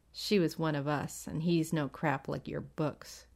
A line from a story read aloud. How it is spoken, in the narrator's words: Gramadora muttered